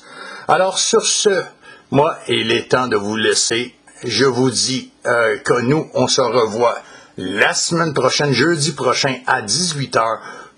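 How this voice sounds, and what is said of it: Non-France French accent. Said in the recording (French): “pour les Français qui m'écoutent, désolé pour mon accent”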